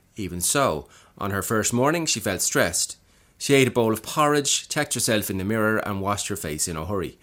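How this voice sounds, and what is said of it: Practiced put-on accent. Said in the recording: “that's my take on Come and Get Secure, the first paragraph at least, after dipping my toe into the accent for a couple of weeks”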